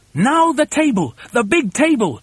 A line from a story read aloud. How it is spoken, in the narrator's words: shouted Mugglewump